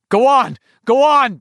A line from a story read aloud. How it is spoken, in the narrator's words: Ben shouted